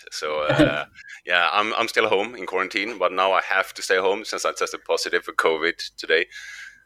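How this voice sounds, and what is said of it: Sick-sounding, deep late-night DJ voice. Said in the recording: “you don't sound good, man ... some people can hear it in my voice ... you sound like a late night radio DJ now”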